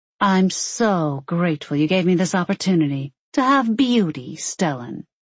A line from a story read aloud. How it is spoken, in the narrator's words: she said dryly and sarcastically